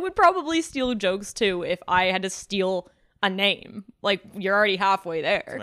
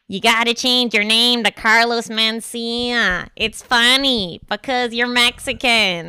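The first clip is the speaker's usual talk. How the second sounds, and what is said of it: Imitates another person's voice. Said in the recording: “do that impression... She kind of nailed Shores?... you know the fucking slug from Monsters, Inc.? The slug lady? Sounds exactly like... that”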